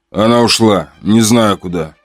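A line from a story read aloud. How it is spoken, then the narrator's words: Calm. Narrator (Russian): спокойно сказал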